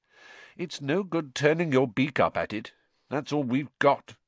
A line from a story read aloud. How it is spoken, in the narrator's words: said Harry grimly